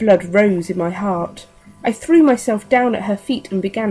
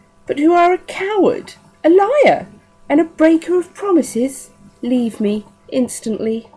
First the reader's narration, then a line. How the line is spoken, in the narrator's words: exclaimed contemptuously